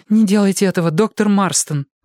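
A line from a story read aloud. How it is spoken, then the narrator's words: Pleading. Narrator (Russian): взмолилась Сьюзен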